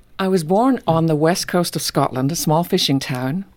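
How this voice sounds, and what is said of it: Scottish accent. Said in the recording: “You can probably tell by my accent, even though I live in Texas, I'm not a native ... It doesn't sound like a Texas accent.”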